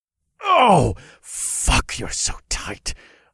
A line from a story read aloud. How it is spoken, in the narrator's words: I moaned